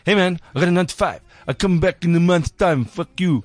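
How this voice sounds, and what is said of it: Poorly imitated accent of another person. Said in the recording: “I'll try to speak like Eric ... Aren't comedians supposed to be good at accents? ... That was horrible.”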